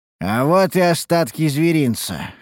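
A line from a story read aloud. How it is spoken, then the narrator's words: Smirking snort. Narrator (Russian): хмыкнул Харан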